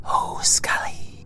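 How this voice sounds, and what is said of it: Wispy old elf character voice. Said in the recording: “said the Mist Elf teacher in her wispy voice”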